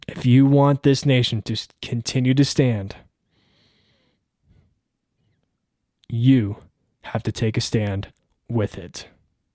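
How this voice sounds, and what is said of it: Strained, fading voice. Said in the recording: “I'm fired up. I'm actually losing my voice.”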